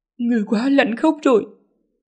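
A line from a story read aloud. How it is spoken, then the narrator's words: Trembling voice. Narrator (Vietnamese): Lý Ngư run rẩy nói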